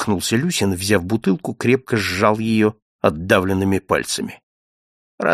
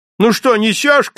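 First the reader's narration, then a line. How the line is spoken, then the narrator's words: Shouting from another room. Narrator (Russian): крикнул из другой комнаты Каширин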